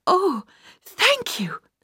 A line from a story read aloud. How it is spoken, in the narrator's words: she gasped